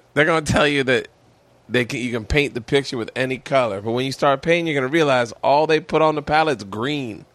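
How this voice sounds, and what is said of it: Imitates another person's voice. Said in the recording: “I'm going to do a Dave Chappelle accent right now. ... Really good. ... It's like, close your eyes. ... this is a bad accent.”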